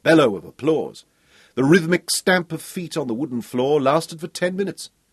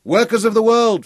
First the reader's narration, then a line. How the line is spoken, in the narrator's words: Fergus shouted at them